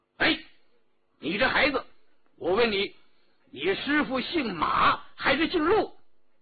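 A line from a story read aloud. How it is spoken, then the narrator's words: Loud. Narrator (Chinese): 张大人高声地说道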